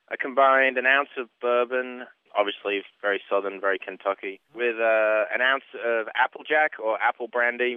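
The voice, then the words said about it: Mixed Northern English and Kentucky accent. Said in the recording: “you have a really strange Kentucky accent ... it's the weirdest combination ever. It's Northern England and Kentucky mixed.”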